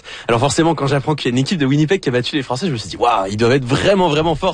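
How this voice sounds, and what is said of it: French-from-France accent. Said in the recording (French): “ça s'entend à mon accent, je viens de France”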